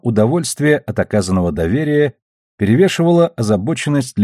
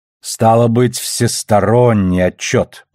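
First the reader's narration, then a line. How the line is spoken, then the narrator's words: Drawling. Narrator (Russian): протянул Оверстрит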